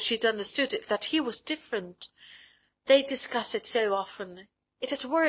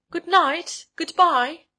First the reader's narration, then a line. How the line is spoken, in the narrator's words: cried from the top steps, feeling that the self of hers was taking leave of them forever